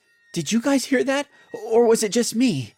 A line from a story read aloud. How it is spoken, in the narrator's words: Jim said in a shocking voice